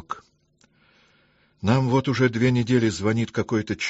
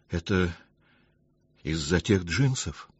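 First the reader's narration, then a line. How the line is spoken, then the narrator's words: Timid guess. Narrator (Russian): робко предположил Дима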